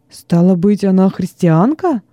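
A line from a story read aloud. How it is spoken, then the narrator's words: Exclamation. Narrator (Russian): воскликнул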